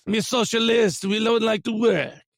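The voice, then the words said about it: Bad put-on French accent. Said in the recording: “French accent? That's a horrible French accent.”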